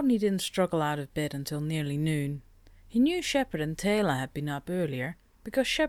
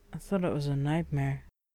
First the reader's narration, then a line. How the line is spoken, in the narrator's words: Shepard sank back against the pillows, muttering